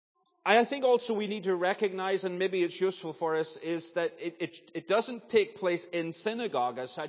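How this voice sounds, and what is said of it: Northern Irish accent. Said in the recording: “I'm Northern Irish ... the accent's a little further than that”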